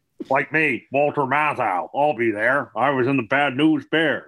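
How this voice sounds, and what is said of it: Imitates another person's voice. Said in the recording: “That was the same impression. You didn't change your voice. ... Those two voices, although sounding nothing like the people they're supposed to sound like”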